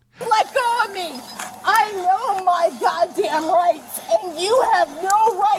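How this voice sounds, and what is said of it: Screaming. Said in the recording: “she started screaming like a child”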